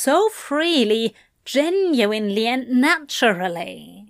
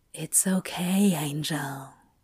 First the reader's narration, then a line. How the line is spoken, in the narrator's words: he whispered